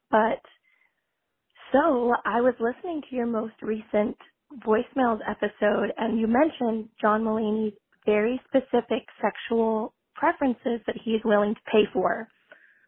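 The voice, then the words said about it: Hoarse, strained voice. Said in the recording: “I've totally lost my voice.”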